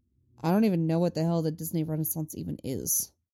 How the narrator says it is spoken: grumbles

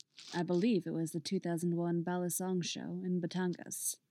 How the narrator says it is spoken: Barsoom replies, in a deep and tranquil voice

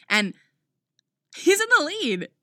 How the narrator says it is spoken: she exclaims

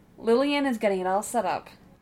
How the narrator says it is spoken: she said

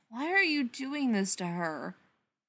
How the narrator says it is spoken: Spencer sighs

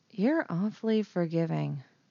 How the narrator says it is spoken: Leia murmured

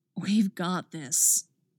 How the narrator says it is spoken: Jason whispered

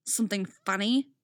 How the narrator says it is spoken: snarls under her breath

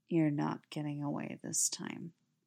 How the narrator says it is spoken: he murmurs, breath hot against Stiles' skin

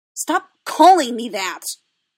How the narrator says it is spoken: Ahsoka snapped, irritated and immediately ashamed of herself for being so

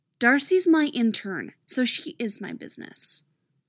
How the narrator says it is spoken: Jan says firmly

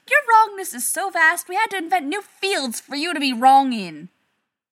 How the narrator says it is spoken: Rodney shouted

